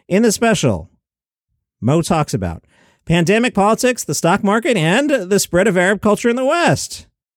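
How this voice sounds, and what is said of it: Lilting sing-song list delivery. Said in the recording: “I'm going to put a particular lilt in my voice to illustrate the rule of three.”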